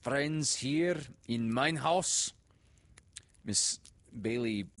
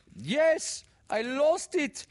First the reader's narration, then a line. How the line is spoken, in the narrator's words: wailed Miss Modzelowski